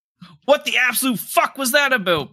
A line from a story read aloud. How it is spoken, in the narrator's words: Bart yelled